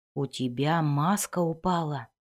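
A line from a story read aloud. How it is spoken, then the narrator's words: Whisper. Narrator (Russian): шепнул Вульфгард Зирту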